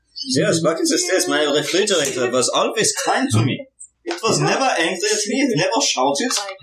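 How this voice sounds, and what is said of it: Put-on German-Norwegian accent. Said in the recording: “a random German-Norwegian accent”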